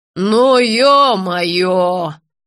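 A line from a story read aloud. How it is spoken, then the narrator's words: Moaning. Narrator (Russian): простонала Роза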